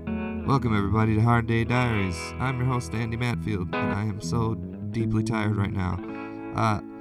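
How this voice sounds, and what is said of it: Hoarse, strained voice. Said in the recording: “I'm kind of losing my voice right now”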